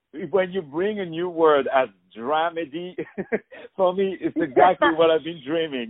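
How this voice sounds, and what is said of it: Non-native English accent. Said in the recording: “English as his second language, as you can hear from my beautiful, gorgeous, not sexy at all accent”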